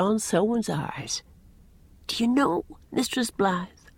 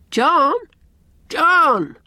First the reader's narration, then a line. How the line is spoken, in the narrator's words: I called out, just like that, just like a frightened child